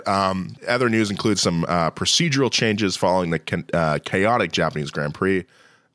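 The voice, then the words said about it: Groggy, tired voice. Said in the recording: “my voice is a little groggy ... I'm tired”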